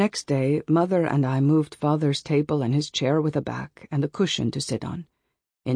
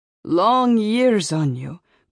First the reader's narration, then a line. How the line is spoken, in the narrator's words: cried Mother